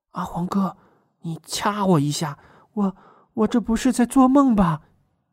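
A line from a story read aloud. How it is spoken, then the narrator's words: Quiet. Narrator (Chinese): 雪儿小声说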